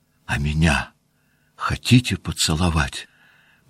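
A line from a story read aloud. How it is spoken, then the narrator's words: Barely audible emotional whisper. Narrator (Russian): прошептала она чуть слышно, улыбаясь и чуть не плача от волнения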